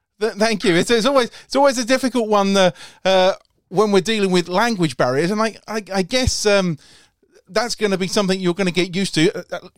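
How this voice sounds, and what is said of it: West London accent. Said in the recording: “my West London drawl”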